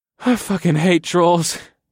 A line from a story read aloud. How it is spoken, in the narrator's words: I chuckled